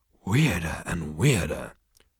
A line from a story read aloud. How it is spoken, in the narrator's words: breathed Zaphod